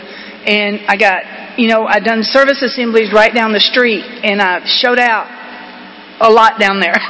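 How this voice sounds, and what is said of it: Southern Georgia accent. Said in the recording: “y'all can tell by my voice, my accent, that I didn't come from there. I come from here, from Georgia.”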